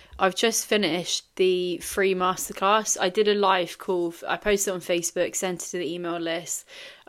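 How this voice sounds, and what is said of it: Tired-sounding voice. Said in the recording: “You will probably hear from my voice that I'm tired”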